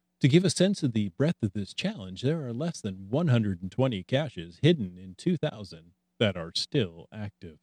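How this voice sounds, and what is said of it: Radio announcer voice. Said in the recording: “was that a good radio announcer voice? ... That was not bad. That was that was impressive.”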